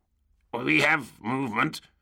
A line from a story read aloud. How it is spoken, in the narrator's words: the tech adept grumbled